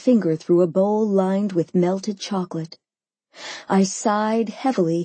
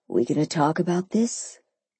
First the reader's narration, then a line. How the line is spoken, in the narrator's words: he asked quietly